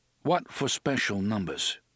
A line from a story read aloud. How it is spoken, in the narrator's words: Eddie asked